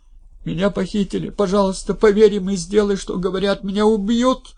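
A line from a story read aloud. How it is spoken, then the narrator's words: Sobbing over phone. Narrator (Russian): прорыдал в трубку муж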